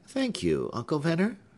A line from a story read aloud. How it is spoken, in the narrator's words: said Hepzibah, smiling, for she always felt kindly towards this simple and talkative old man